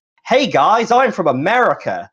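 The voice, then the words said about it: Poor put-on Californian American accent. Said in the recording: “it wasn't a good Californian accent ... that level of not good American accent”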